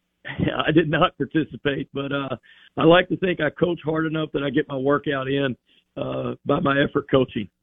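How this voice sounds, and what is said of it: Hoarse voice. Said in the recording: “Sorry for the hoarse voice. We had some mat drills this morning. ... Still recovering my voice a little bit here.”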